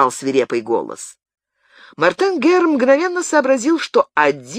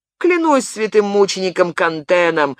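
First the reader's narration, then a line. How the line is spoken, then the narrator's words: Grumbling. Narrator (Russian): ворчал он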